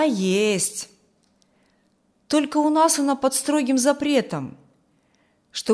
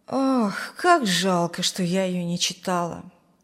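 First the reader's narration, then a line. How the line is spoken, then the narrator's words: Regretful sigh. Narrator (Russian): вздохнула Зина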